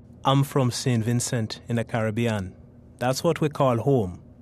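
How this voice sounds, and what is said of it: Caribbean St. Vincent accent. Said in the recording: “I wasn't aware of my accent until I came here... growing up in St. Vincent, no one told me I had an accent”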